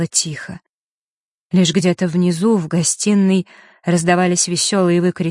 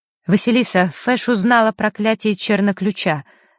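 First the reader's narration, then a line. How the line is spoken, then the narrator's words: Sharp. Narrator (Russian): резко произнесла Захара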